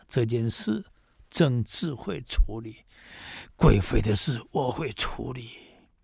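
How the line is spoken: Muttering to self. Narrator (Chinese): 喃喃自语的说

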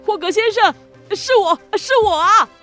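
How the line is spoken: Happy shouting. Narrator (Chinese): 帕斯巴德管不了这么多，开心地嚷叫

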